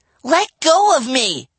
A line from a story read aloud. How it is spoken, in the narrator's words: Livy cried